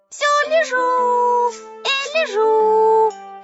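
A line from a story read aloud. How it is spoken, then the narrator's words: Lion cub shouting. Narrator (Russian): крикнул львенок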